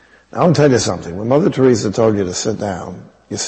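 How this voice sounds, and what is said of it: Usual voice. Nothing is said of it.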